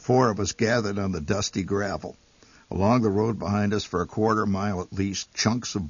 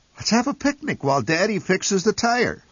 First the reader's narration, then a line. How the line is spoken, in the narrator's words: suggested Mother cheerfully